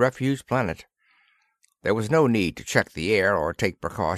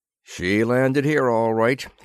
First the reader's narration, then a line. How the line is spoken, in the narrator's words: he grunted